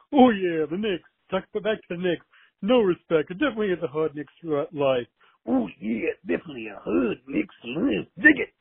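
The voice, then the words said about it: Poor imitation of another person's voice. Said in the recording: “this shitty Rodney Dangerfield impersonation ... Oh, it's awful.”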